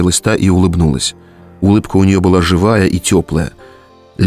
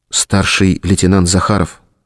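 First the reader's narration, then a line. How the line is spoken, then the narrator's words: Quiet. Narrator (Russian): тихо сказала Лена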